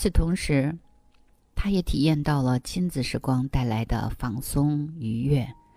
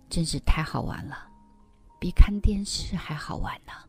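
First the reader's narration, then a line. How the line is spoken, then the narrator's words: Child's delighted exclamation. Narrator (Chinese): 宝宝感叹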